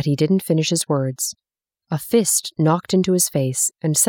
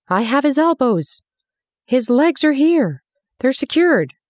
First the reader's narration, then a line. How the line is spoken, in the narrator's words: cried a man with a shovel